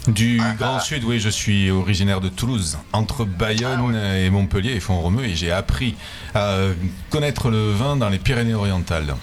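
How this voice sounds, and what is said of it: Southern French accent. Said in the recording (French): “Autre accent du sud également, peut-être pas de Montpellier”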